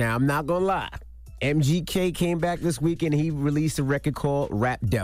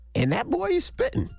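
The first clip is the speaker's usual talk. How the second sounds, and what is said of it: High-pitched voice. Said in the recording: “I did that in my high pitched voice. ... That was my high pitched voice.”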